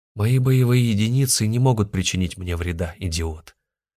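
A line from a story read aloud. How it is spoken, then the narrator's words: Calm reply. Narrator (Russian): спокойно ответил ему Захар Сергеевич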